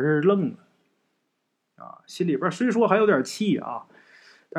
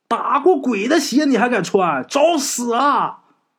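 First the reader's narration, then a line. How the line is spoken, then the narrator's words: Shouting. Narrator (Chinese): 这个黄泉还喊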